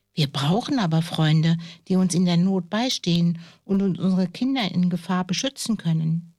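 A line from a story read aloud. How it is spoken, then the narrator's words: Plain. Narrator (German): sagte die Falkenfrau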